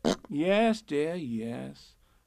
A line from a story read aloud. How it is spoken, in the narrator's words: said Kanga soothingly